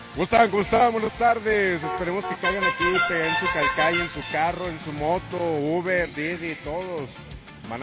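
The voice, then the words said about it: Radio announcer voice. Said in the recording (Spanish): “tú sí tienes voz de locutor”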